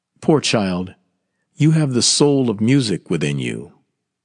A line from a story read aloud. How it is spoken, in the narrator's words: Vardalek said in a very sad voice